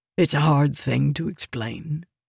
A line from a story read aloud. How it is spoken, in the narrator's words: he said quietly